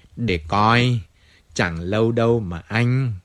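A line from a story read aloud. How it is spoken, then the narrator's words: Plain. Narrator (Vietnamese): Michel nói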